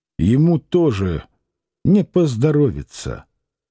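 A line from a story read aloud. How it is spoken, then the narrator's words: Clear and forceful. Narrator (Russian): Иноков сказал очень внятно и с силой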